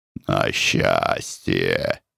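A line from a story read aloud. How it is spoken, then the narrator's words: Said hoarsely. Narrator (Russian): проговорил он хрипло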